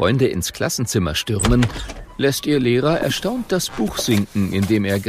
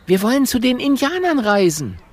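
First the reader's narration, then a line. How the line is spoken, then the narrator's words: Calling out. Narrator (German): ruft Mathilda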